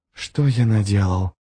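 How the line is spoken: Whisper. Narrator (Russian): прошептал Ярви

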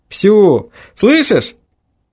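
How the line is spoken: Shouting into phone. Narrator (Russian): прокричал я в трубку

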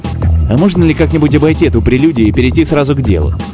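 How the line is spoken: Angry. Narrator (Russian): сердито произнес Королев

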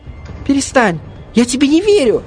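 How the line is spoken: Shrill shriek, younger one. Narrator (Russian): взвизгнул младший

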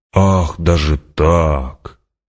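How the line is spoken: Drawn-out, mocking. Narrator (Russian): протянул император, и барон ясно услышал насмешку в его голосе

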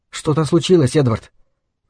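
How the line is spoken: Soft question. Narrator (Russian): мягко спросила Гейл

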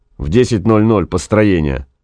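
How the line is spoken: Gloomy. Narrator (Russian): мрачно сказал Гай

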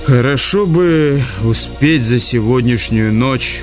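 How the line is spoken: Sighing. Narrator (Russian): вздохнул он

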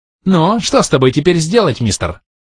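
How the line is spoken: Squealing piglet question. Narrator (Russian): Все так же визгливо спросил порося

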